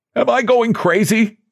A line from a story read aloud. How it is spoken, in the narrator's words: Suddenly he cried